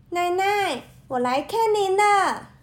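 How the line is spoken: Loud call. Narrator (Chinese): 小红帽大声地叫道

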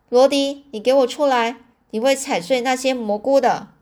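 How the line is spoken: Loud. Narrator (Chinese): 我大声的说

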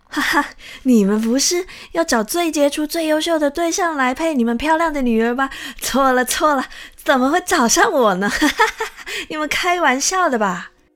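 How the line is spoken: Laughing loudly. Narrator (Chinese): 这墙一听啊，便大笑

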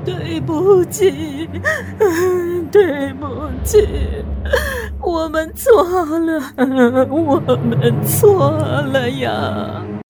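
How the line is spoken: Breathless sobbing, repeated murmuring. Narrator (Chinese): 夫人在一旁已经哭得上气不接下气了，口中一直念着

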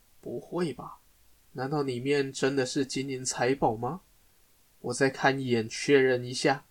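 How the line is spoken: Muttering to himself. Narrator (Chinese): 他喃喃自语着

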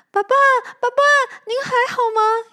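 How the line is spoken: Calling out. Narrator (Chinese): 小光叫着

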